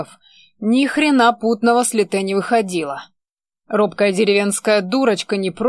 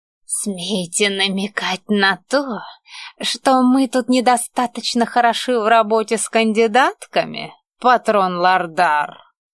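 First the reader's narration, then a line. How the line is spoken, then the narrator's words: Menacing hiss. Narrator (Russian): Зашипел на меня тощий маг, угрожающе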